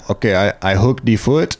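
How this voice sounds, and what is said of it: Slight put-on Brazilian accent. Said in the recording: “he gets like a little Brazilian accent.”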